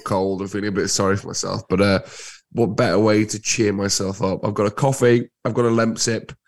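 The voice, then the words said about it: Husky, congested voice. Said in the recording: “full of cold... I sound like I'm doing a sexy husky voice”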